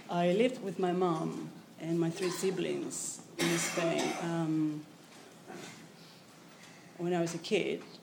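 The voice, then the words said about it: Spanish accent in English. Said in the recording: “I am from Spain, obviously... this funny accent”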